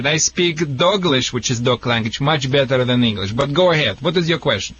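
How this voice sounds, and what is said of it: Noticeable foreign-sounding accent. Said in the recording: “sorry for my accent. I mean, a lot of people think it's a Michigan accent”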